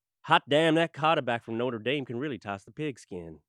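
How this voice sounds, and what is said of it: Put-on Southern American accent. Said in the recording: “Why did you just do a Southern accent?”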